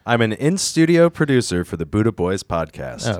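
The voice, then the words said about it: Radio announcer voice. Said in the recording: “good ... radio ... voice.”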